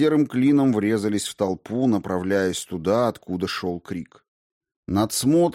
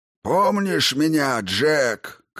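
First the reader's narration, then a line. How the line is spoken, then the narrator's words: Shouting together with doll. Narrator (Russian): крикнул он, и кукла крикнула тоже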